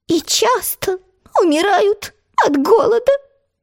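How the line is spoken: Sad mosquito squeak. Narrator (Russian): печально пропищал комар

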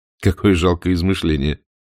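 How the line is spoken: Mocking. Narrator (Russian): насмешливо произнес Блад

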